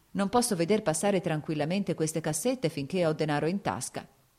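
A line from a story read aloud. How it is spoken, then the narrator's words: Plain. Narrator (Italian): disse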